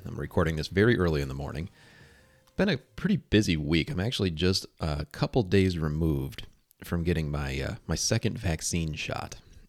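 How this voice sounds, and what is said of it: Quiet, tired voice. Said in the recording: “If I sound a little quiet, if I sound a little tired, it's because I am.”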